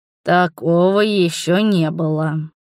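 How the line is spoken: Hoarse voice. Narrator (Russian): сипло выдал

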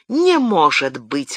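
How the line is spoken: Exclaiming woman. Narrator (Russian): воскликнула госпожа де Пуатье

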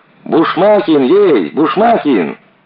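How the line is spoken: Yelling behind a door. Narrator (Russian): За дверью в коридоре орала Маруська

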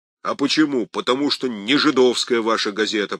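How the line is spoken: Deep bass voice. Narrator (Russian): пробасил слесарь

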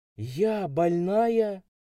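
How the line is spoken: Female exclamation. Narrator (Russian): воскликнула блондинистая

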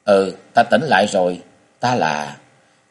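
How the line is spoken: Gentle dazed voice. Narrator (Vietnamese): Ngọc Long dịu dàng nhưng với giọng hồ đồ nói

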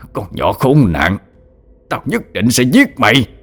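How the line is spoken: Angry old man. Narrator (Vietnamese): Lão khuôn mặt giận dữ nói

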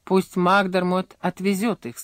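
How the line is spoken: Plain. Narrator (Russian): сказал Дженкинс

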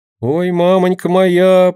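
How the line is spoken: Moan. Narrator (Russian): простонала

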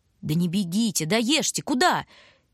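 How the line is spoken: Shout. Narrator (Russian): крикнула Луша

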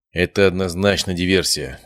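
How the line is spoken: Sigh. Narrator (Russian): вздохнул отец

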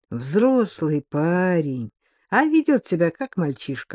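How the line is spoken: Sighing. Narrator (Russian): вздохнула Дарья Олеговна

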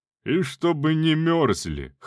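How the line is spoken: Chuckle. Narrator (Russian): хохотнул Буревой

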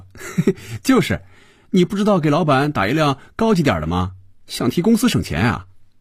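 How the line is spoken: Laughing. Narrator (Chinese): 菲比笑着对肖斌说

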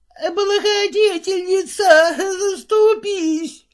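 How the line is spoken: Tearful wail. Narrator (Russian): завопила со слезами

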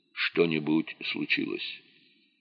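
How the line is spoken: Quiet question. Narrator (Russian): Шеварднадзе, понявший, что происходит нечто невероятное, тихо спросил

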